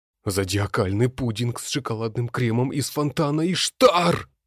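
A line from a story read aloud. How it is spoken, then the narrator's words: Unrestrained exclamation. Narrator (Russian): Не сдержавшись, воскликнул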